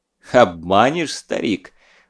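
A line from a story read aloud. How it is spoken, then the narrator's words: Laughing, hopeful. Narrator (Russian): засмеялся Скуратов, искренне надеясь, что дело все-таки обойдется без душегубства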